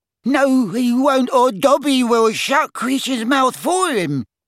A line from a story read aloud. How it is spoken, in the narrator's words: cried Dobby in a high-pitched voice